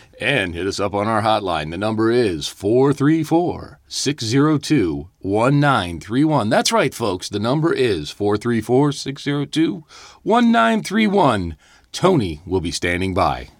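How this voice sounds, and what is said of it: Deep announcer-style radio voice. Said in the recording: “I want to practice my radio voice ... I get chills when you do radio voice.”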